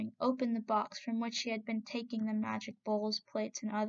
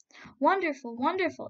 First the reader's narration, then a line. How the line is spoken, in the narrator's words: shouted the people with one voice